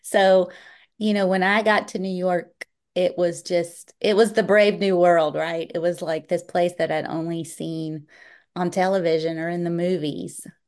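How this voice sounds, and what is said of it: Southern US accent. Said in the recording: “as you can tell from my accent, I'm not from around that area. I'm from North Carolina.”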